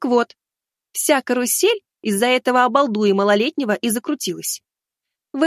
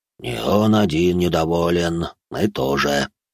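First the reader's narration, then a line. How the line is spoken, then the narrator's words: Grumbling. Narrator (Russian): пробурчал Ерема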